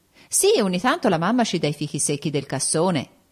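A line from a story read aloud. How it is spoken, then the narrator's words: Plain. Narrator (Italian): disse alle bambine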